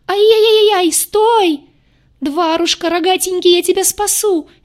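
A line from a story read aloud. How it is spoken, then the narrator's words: Hysterical shrieking. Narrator (Russian): визжала полоумная девица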